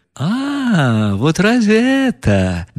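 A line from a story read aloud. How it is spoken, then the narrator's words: Hysterical laughter. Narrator (Russian): Настасья Филипповна хохотала, как в истерике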